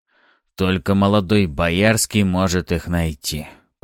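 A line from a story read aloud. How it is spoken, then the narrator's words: Mumbled. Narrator (Russian): пробормотал Ариста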